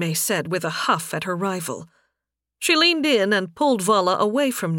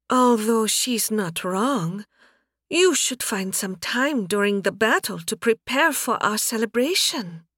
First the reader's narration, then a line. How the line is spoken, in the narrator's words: Narime breathed out after the kiss